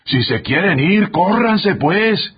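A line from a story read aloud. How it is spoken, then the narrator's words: Distant shout from outside. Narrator (Spanish): gritó el ayudante desde afuera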